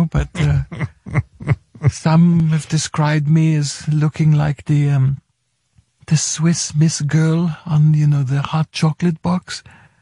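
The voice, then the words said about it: German accent in English. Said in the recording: “I love your accent ... It's gorgeous ... I'm from Germany.”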